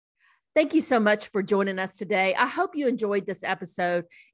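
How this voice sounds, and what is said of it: Mild Southern American accent. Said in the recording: “a little Southern accent”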